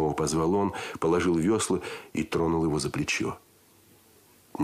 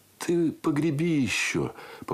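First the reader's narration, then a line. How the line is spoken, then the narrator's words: Muffled request. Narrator (Russian): попросил он и глухо добавил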